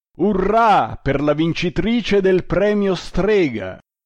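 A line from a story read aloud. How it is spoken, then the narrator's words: Inquisitor shouting. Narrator (Italian): gridò il grande inquisitore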